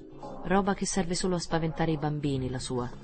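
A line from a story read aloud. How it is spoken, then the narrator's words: Plain. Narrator (Italian): disse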